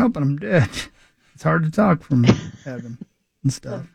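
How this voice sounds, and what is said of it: Usual voice. Nothing is said of it.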